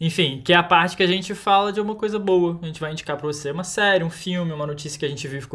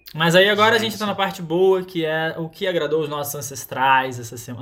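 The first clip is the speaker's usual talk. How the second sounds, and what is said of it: Slips into a São Paulo accent. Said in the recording (Portuguese): “De onde saiu esse meu sotaque agora ... ele tá paulista!”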